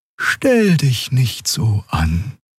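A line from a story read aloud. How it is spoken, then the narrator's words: Soft gentle voice. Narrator (German): sagte sie mit sanfter Stimme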